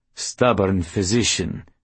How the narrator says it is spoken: Grizz grumbled

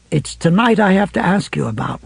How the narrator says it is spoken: Ralph said, speaking as gently as he could

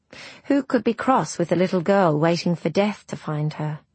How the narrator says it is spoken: Rose sighed

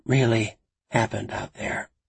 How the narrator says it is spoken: she asked quietly

